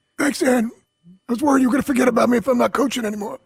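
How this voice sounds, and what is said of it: Imitates another person's voice. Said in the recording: “Oh, is that your Doc Rivers? ... your Doc Rivers impersonation”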